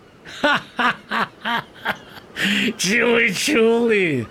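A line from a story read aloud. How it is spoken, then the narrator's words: Sailors laughing. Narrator (Ukrainian): засміялися матроси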